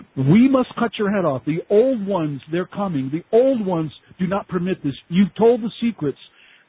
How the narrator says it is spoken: began screaming in a male demonized voice

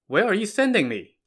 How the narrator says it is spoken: Corporal Zhang asked

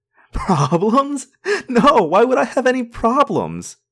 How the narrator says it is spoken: I giggled and giggled some more

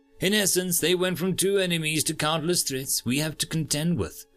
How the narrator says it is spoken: Maharia said before her voice soured

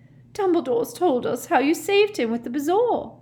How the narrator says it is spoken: sobbed

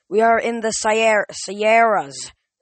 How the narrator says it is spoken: Zoe yelled

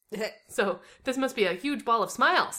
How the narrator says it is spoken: I blurted

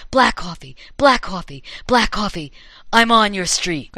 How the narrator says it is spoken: his sister whispering

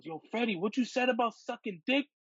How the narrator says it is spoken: at the top of his lungs, he goes

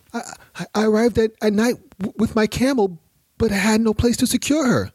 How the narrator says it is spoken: the Bedouin stammered

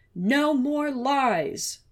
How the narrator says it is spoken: Murphy refused to hear him, wouldn't let him speak, yelling

